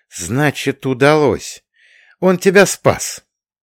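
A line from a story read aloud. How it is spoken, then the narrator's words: Joyful laughter. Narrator (Russian): Марина Теодоровна радостно засмеялась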